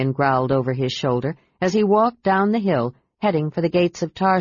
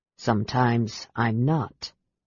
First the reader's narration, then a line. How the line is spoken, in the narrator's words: said Aaron quietly